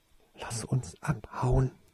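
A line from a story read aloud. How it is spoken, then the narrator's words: Whispered. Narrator (German): flüsterte Toriesa Tase ihn zu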